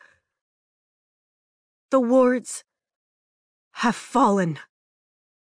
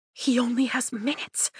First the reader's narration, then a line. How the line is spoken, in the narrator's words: I whisper to Zayden